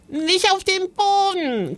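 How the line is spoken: Shriek. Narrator (German): kreischte Joris

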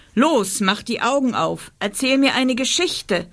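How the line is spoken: Monster snapping. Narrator (German): schnauzte das Monster

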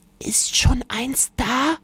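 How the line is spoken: Whispered. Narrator (German): flüsterte Luisa

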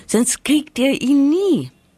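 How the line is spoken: Calling. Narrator (German): ruft

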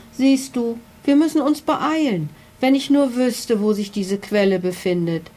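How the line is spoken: Bird sighing. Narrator (German): seufzte der Paradiesvogel

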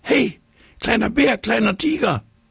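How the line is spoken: Calling out. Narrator (German): ruft der Fisch im Wasser

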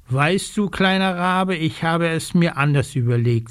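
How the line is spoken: Plain. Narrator (German): sagt sie

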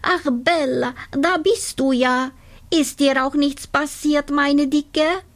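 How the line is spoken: Call. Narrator (German): rief er

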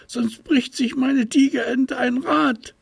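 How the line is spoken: Called out. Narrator (German): rief der kleine Tiger

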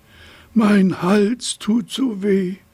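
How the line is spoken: Whimpering to herself. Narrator (German): Sie jammerte vor sich hin

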